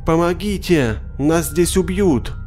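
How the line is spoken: Creature's changed-tone cry. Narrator (Russian): существо сменило тон и вскрикнуло снова

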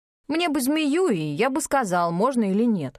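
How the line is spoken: Slightly angry reply. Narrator (Russian): немного сердито отозвался Игнис

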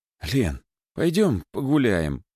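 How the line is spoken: Pleading. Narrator (Russian): взмолился я

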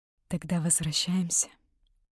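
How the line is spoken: Quiet. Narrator (Russian): сказала я тихо

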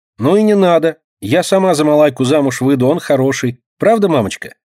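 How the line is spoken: Cheerful, child. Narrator (Russian): весело говорит Динка

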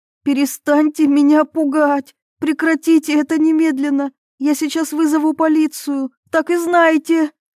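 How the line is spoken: Frightened trembling scream. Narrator (Russian): закричала она дрожащим голосом

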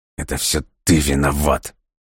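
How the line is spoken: Through gritted teeth. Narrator (Russian): Сквозь зубы процедил он

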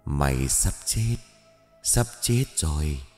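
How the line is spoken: Menacing whisper. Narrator (Vietnamese): thì thầm vào tai

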